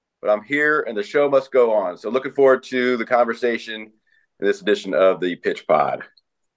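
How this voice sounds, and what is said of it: Slightly rough, hoarse voice. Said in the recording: “my voice is a little rough”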